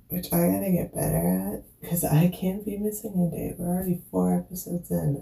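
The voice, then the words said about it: Hoarse, fading voice from illness. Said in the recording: “I am kind of losing my voice because I've been sick the last couple days”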